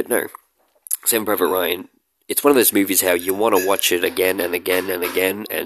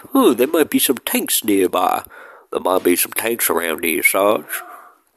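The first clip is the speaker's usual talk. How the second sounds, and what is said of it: Really bad put-on accent. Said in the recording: “my uh, really bad accent”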